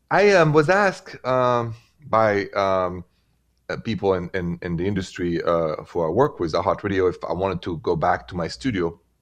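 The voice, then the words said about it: French accent from Paris. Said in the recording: “The accent is from Paris.”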